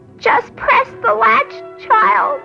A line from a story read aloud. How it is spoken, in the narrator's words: the grandmother cried